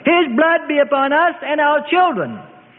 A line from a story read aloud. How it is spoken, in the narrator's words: the Sadducees and Pharisees cried